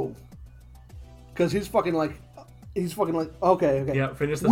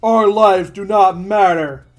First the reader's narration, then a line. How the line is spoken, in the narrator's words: One of the judges yells